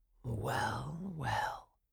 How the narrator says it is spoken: muttered Coppelius

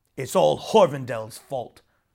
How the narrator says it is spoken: grumbled Feng

